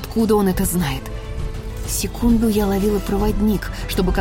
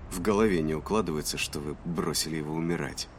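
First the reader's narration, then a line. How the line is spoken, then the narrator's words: Muttering lieutenant. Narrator (Russian): пробормотал лейтенант Пью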